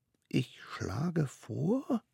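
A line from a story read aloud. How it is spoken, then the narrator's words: Tiny one whispering. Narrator (German): flüsterte der Allerkleinste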